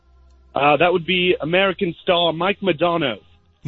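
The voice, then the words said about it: Bad put-on accent. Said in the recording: “Horrible accent. Horrible. Just embarrassing. Almost as bad as mine, and I'm really bad.”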